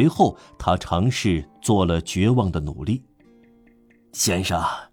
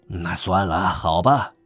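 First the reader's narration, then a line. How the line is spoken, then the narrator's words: Muttering. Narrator (Chinese): 他咕哝着说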